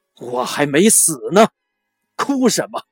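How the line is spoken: Rising angry voice. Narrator (Chinese): 母亲声音昂扬起来，眼睛里闪烁着愤怒的光芒，说

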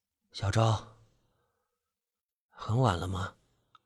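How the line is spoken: Murmuring. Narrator (Chinese): 我喃喃道

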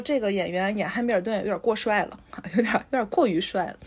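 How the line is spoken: Amused. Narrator (Chinese): 我当时还在心里发笑，我说

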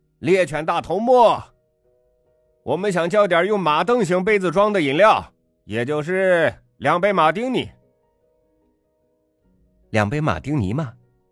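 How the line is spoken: Laughing question. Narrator (Chinese): 侍者笑着问道

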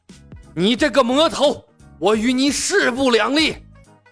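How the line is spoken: Furious, through gritted teeth. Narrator (Chinese): 李小白，剑圣咬牙切齿

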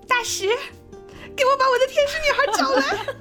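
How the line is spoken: Lonely. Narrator (Chinese): 额外孤独的他 跟他说

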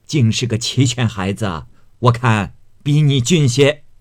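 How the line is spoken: Laughing. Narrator (Chinese): 贾母笑说道

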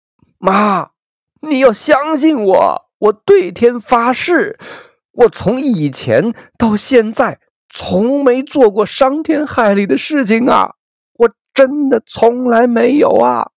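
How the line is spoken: Crying shout over loudspeaker. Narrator (Chinese): 扩音器旁的张美丽估计很久没看到母亲了，哭着喊

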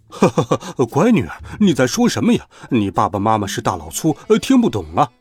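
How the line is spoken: Father, chuckling. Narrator (Chinese): 他那看起来像大老板的爸爸笑呵呵地说

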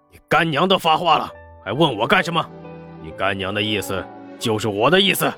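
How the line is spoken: Stern shout. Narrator (Chinese): 只能厉声喝道

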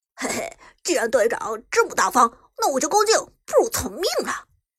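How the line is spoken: Sly chuckle. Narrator (Chinese): 妖帝嘿嘿一笑

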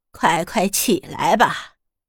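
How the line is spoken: Smiling. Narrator (Chinese): 大姑笑着说

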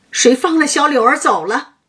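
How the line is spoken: Wild shouting. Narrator (Chinese): 薛蟠在那里乱嚷乱叫

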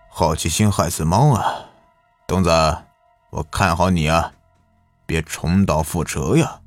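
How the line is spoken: Sighing. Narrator (Chinese): 李老板叹息一句

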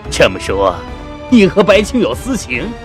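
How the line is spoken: Sneering. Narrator (Chinese): 徐师长冷笑着

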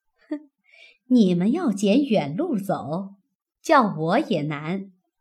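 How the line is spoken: Cold sneer. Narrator (Chinese): 凤姐冷笑道

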